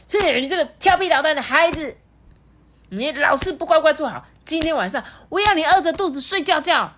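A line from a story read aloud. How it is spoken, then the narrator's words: Angry shouting. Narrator (Chinese): 陆克生气的大喊说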